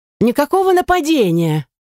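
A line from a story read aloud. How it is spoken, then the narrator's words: Squealing voice. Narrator (Russian): Яс снова переходя на визгливый манер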